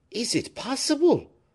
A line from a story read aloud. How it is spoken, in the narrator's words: exclaimed Fouquet